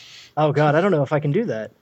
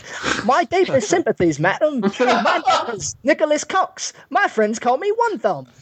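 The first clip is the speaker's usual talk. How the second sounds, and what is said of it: Put-on Americanized Cockney accent. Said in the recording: “you got to be Cockney for this one. You got to be like Jason Statham ... I seriously don't think I can do a Cockney accent ... Do it Bert in Mary Poppins ... Oh, the American British, then.”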